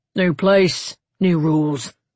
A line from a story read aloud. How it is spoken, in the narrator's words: grunted the older guard